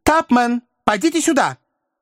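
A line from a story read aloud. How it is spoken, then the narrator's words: Abrupt shout. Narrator (Russian): мистер Пиквик отрывисто крикнул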